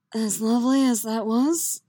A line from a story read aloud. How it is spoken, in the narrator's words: he says, a rasp in his voice that Yennefer knows full well means he's more than a little hard in his trousers